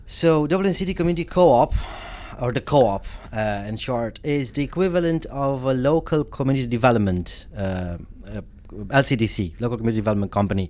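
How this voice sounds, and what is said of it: Non-native foreign accent in English. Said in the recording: “you're also an immigrant yourself, if people haven't already guessed it from the accent.”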